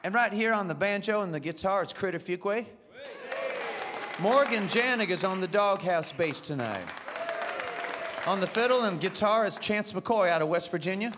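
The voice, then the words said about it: Pleasant, appealing accent. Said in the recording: “you could read the phone directory with that accent. I'd sit there and listen all night.”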